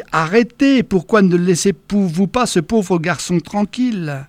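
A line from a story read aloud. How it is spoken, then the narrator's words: Plain. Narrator (French): Franck a dit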